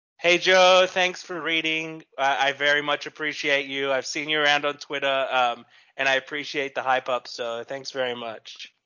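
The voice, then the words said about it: Noticeable accent, milder than Steve Irwin. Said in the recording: “Oh, that accent too, man. ... I can go deeper. I can go full Steve Irwin”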